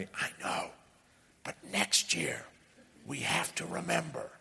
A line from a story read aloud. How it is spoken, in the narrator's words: Whitney whispers back